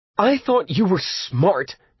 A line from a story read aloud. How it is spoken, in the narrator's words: she shouted finally